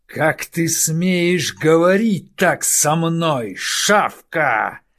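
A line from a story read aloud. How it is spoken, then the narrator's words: Growled. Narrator (Russian): зарычал Хауда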